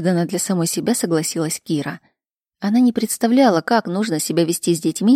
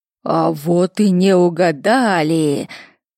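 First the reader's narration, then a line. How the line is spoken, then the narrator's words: Growl. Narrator (Russian): рыкнул Алексей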